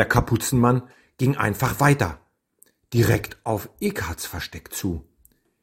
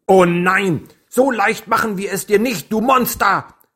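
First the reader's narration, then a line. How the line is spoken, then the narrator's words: Screaming. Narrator (German): schrie sie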